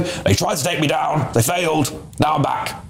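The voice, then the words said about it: Imitates another person's voice. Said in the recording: “That's my best Nigel impression.”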